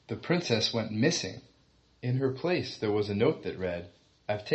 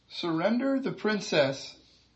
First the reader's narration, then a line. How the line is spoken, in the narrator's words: he yelled while shaking in his armor